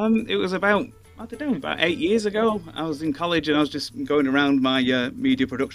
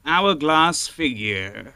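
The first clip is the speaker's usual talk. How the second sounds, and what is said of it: Imitates another person's voice. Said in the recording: “Just say in Matt Berry's voice ... your talent for mimicking the comedian Matt Berry”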